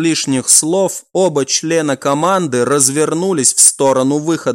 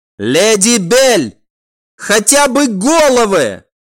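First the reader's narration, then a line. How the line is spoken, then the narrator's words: Shouting after someone. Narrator (Russian): прокричал вслед удаляющейся девушке некромант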